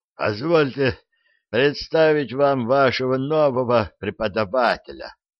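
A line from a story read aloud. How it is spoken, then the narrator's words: Queasy hoarse wheeze. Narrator (Russian): просипел Кефир, с трудом справляясь с организмом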